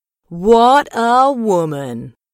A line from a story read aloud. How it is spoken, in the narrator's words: the boys all took a deep breath and shouted out together